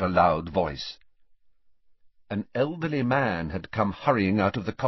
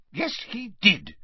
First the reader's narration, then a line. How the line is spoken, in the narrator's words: snapped Ogden